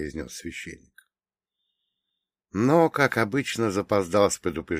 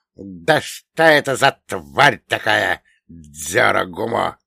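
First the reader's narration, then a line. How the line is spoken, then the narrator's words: Hissed. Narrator (Russian): прошипел коротышка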